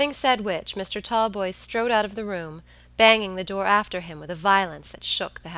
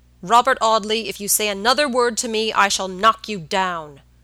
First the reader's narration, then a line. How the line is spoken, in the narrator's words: cried George furiously